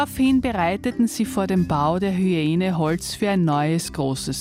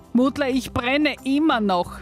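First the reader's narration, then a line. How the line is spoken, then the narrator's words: Hyena's tormented scream. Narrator (German): schrie die Hyäne gequält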